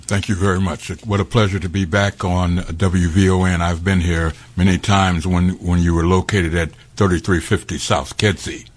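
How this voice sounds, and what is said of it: Resonant radio-style voice. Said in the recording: “you definitely got a radio voice”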